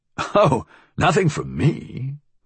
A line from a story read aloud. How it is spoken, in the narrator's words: Vale said with a puzzled laugh